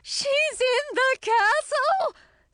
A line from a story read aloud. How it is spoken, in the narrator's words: said Queen Frizella, her voice high and shrill